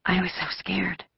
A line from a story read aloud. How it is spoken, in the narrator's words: Ellen whispered suddenly